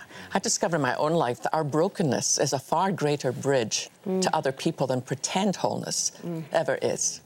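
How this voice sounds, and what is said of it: Strong, hard-to-understand accent. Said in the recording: “Listen to my accent. ... I can't understand a single word you're saying.”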